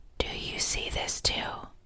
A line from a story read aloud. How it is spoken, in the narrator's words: whispered